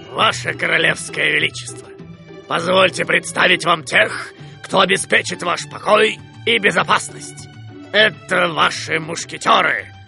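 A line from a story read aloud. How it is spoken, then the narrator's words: Deep, mock-respectful voice. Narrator (Russian): Пробасил с наигранным уважением капитан Пит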